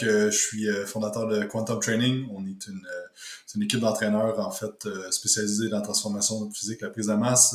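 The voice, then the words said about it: Québécois French accent. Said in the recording (French): “je suis, euh, du Québec ... comme vous l'avez remarqué avec euh, mon accent.”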